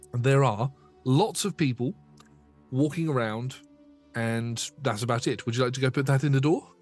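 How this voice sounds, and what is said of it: Voice giving out, strained. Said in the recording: “my voice is going”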